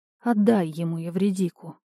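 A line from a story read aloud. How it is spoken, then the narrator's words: Quiet pleading. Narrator (Russian): тихо попросила богиня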